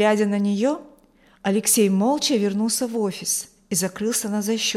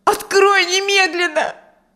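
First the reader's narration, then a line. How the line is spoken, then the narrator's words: Shouting woman. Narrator (Russian): кричала она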